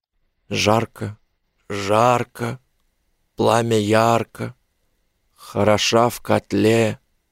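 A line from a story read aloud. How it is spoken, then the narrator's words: Hoarse whisper. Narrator (Russian): Хриплым шепотом он произнес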